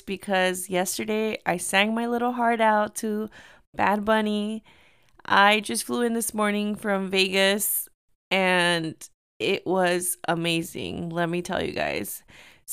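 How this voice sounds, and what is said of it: Hoarse, strained voice. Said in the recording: “excuse my voice. I am kind of losing my voice”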